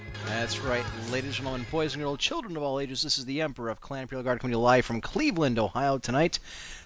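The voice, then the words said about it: Sick, sore-throated voice, less loud. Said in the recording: “my voice is not what it usually is because I'm experiencing a bit of a cold ... fighting off a sore throat ... if I'm not my loud and boisterous self”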